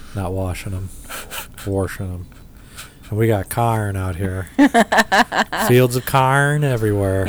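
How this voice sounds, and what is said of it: Put-on Midwestern accent. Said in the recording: “That's my Midwestern accent”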